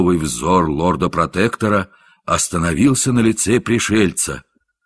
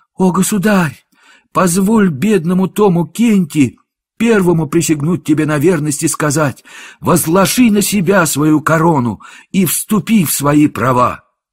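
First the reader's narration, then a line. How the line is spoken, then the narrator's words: Joyful exclamation. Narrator (Russian): Мнимый король с радостным лицом воскликнул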